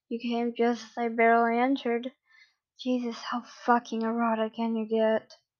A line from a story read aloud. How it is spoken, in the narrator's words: a moaning mess